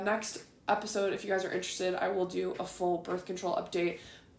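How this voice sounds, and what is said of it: Raspy, groggy voice. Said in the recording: “my voice is getting more raspy and more groggy by the minute”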